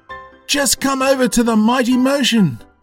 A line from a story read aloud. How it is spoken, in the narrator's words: cried Curtis